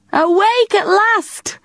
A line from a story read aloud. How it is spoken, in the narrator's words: Mum laughed